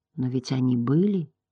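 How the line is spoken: Quiet. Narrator (Russian): тихо сказал Атрей

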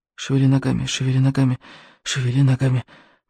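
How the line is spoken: Muttering. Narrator (Russian): бормотал рыбьенок

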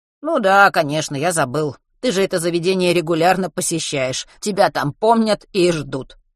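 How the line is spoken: Smirking. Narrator (Russian): хмыкнул Матвей

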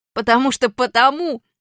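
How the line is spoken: Shouting. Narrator (Russian): закричал я

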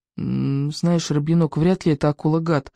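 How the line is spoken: Uncertain voice. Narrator (Russian): неуверенно проговорил Икинг

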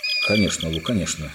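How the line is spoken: Sudden mutter. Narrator (Russian): неожиданно пробормотал Питер

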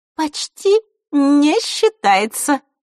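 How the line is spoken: Sweet-voiced interjection. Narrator (Russian): сладким голоском ввернула Захарра

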